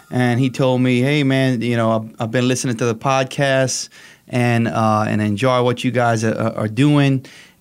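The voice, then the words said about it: Slight Acadiana accent. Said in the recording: “I heard a little bit of a Acadiana accent there from you as well”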